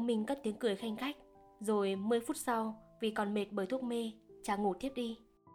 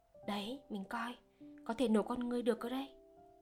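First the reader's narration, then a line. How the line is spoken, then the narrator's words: Frightened whisper. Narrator (Vietnamese): Liên sợ hãi thì thầm bảo chồng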